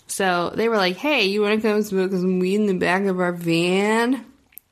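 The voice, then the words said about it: Put-on California accent. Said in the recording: “that was my best California accent.”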